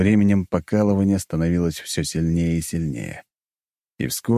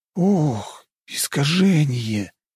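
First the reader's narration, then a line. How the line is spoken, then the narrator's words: Groaning. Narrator (Russian): простонал Нарышкин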